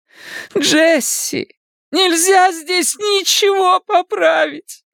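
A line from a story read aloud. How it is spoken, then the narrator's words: Loud sobbing. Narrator (Russian): в голос зарыдала она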